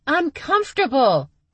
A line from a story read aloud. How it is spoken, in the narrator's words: Stevie yelled